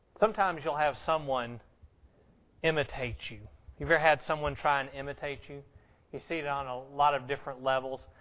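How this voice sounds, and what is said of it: Southern American accent. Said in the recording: “I found out I had a southern accent”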